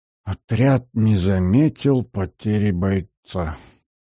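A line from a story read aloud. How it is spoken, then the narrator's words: Very quiet whisper. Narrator (Russian): тихо-тихо прошептал наш герой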